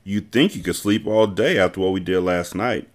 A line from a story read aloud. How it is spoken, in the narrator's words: Emma commented with a light laugh